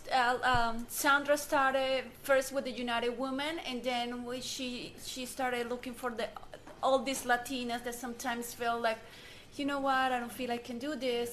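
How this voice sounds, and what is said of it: Thick non-native accent. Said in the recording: “I have a thick accent.”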